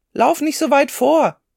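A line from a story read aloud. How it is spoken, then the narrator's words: Father calling out. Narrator (German): rief Martins Vater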